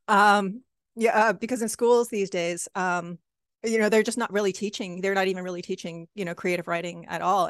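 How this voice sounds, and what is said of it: Hoarse, strained voice. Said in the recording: “I'm still losing my voice.”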